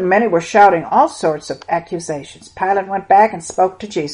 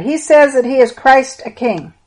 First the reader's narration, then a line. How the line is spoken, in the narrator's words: Another cried